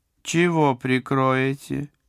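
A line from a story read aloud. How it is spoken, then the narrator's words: Deliberately loud question. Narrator (Russian): нарочито громко спросила матушка Феврония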